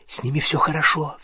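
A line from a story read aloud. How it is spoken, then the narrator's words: Whispering. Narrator (Russian): зашептала она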